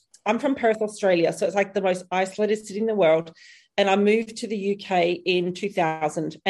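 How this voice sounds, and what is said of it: Mixed Australian and British accent. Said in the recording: “I have a bit of a hybrid accent. I'm like half Aussie, half UK.”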